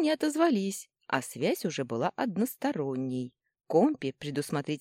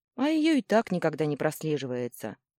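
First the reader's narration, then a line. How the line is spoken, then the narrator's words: Sighing. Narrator (Russian): вздохнула я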